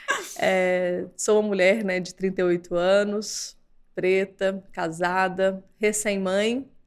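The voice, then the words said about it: Brazilian Minas Gerais accent. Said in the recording (Portuguese): “meu sotaque não me deixa mentir, sou mineira”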